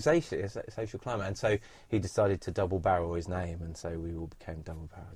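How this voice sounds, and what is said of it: Sussex south-coast English accent, dropped T's. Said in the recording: “I can I can hear that you're from the south coast ... I've got a bit of Sussex accent ... We drop our T's quite a lot”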